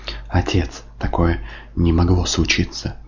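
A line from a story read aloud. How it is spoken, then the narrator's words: Whisper. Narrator (Russian): шептал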